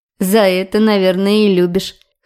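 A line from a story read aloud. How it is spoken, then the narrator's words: Wry snort. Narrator (Russian): хмыкнула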